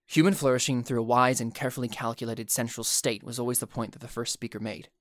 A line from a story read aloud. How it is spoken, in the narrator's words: Kirlan began smoothly